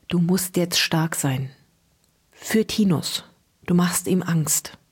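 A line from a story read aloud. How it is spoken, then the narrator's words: Whispered into ear. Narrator (German): flüsterte ihr ins Ohr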